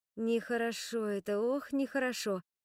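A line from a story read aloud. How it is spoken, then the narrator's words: Sigh. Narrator (Russian): вздохнула я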